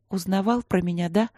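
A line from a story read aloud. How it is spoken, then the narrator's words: Sad. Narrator (Russian): грустно сказала Симонова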